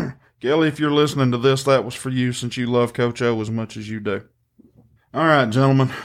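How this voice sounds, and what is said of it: Usual voice. Nothing is said of it.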